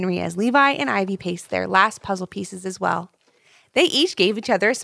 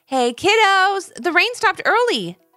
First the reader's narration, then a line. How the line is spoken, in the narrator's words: he shouted